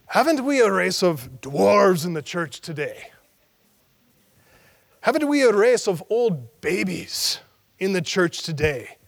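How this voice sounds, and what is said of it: Thick Irish accent. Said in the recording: “he said in a thick Irish accent”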